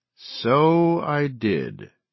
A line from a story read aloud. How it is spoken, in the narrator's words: she said slowly